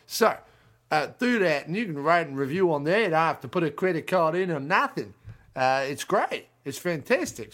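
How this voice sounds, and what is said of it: Put-on Australian accent, drifting South African. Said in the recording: “I don't know why I'm using an Australian accent this week... my Australian accent kind of veers drastically between South African and Australian”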